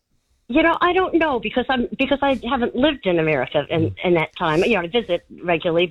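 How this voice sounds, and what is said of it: Slight foreign accent. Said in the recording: “do I detect a slight accent”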